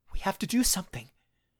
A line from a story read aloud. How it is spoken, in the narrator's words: hissed